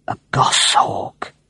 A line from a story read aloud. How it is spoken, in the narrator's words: murmured Nick